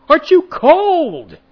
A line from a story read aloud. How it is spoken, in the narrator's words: I scream out to him